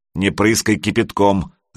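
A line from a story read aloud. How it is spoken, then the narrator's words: Growled. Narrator (Russian): рыкнул мастер знаний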